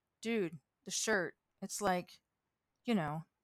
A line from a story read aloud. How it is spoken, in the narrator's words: Pat mumbled